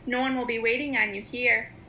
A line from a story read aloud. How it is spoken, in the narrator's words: Martha's taunting voice, saying